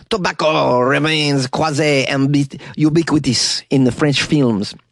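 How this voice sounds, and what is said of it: Put-on French accent. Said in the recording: “I don't know if that's a good French accent.”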